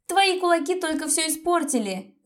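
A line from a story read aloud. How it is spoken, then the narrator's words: Furious shout. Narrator (Russian): закричала Лиза, окончательно выходя из себя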